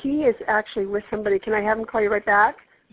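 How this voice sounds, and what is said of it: Congested voice from a cold. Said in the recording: “I have a cold, so I'm having a hard time.”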